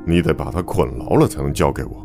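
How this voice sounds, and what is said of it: Hoarse, stern voice. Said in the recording (Chinese): “绷着脸，用嘶哑的声音说道”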